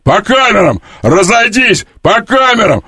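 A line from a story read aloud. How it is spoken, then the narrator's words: Drunken shouting. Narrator (Russian): Он напивался и кричал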